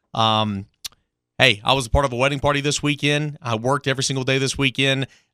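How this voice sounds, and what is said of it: Hoarse, strained voice. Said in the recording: “I'm a little bit hoarse ... I apologize for my voice”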